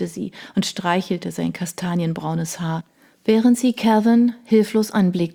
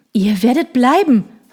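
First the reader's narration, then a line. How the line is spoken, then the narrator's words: Called out. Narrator (German): rief er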